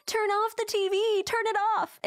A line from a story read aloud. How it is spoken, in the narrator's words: she puts her hands over her eyes and starts screaming